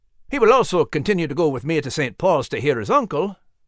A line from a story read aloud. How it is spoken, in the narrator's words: interjected quickly